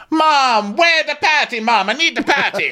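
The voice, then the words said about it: Imitated thick Jamaican accent. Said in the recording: “she breaks out in a really thick accent whenever she's arguing or excited ... My Jamaican accent so is good. All wonky ... I'm not even going to try for a proper one”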